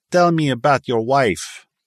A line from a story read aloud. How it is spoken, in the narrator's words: Hicks leered in his odd Italian accent